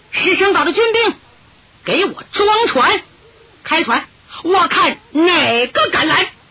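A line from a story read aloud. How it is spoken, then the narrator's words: Loud shout. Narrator (Chinese): 他高喊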